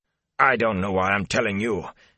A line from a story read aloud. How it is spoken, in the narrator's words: he snapped